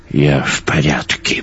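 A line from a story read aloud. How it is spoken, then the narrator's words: Gruff mutter. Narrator (Russian): буркнул Йонс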